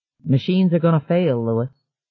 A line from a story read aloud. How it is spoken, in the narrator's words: One of the men telling him calmly